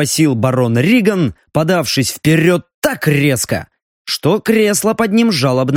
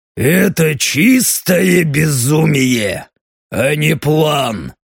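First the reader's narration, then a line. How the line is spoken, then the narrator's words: Through gritted teeth. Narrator (Russian): процедил Даррен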